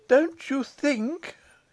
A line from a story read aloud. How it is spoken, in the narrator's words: he faltered